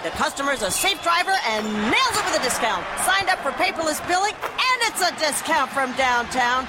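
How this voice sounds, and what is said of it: Excited play-by-play sports announcer voice. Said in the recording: “my impression of a play-by-play announcer who loves to save money”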